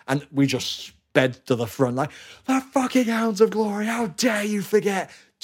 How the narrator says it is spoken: Like screaming

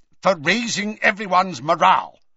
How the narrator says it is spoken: snapped Scrimgeour

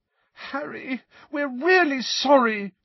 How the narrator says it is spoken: said Hermione desperately, her eyes now sparkling with tears

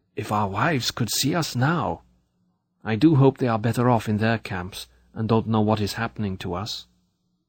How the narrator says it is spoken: Hiding his mouth behind his upturned collar, the man marching next to me whispered suddenly

